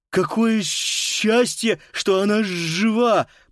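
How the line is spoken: Lisping. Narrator (Russian): прошепелявил Паскаль

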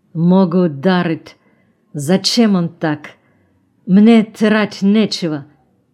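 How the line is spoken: Strained, forced out. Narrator (Russian): Выдавил

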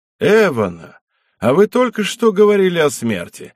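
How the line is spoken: Cheerful exclamation. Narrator (Russian): воскликнул весело Зых

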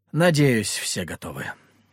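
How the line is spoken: Said after deep sigh. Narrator (Russian): глубоко вздохнув, сказал я

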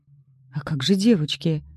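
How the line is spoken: Unsteady mumble. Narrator (Russian): Стараясь не упасть, промямлила я

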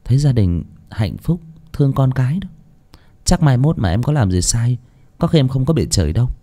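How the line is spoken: Smiling. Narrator (Vietnamese): Hạ mỉm cười

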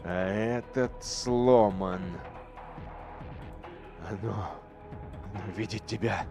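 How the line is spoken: Laughing mutter. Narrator (Russian): пробормотал, смеясь навигатор

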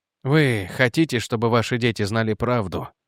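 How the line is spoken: Sad. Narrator (Russian): Печально сказал Реджи

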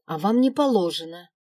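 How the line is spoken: Snapped back. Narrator (Russian): огрызнулась горничная

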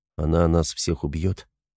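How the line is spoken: Quiet. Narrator (Russian): спросил он негромко

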